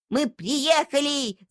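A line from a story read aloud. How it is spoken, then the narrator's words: Shouting. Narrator (Russian): закричала она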